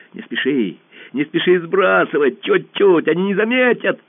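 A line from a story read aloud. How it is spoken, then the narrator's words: Shouting. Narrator (Russian): Пашка закричал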